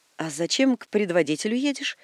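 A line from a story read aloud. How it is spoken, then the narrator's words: Plain. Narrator (Russian): спросил Докукин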